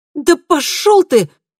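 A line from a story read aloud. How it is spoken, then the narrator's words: Loud exclamation. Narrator (Russian): громко воскликнула Камилла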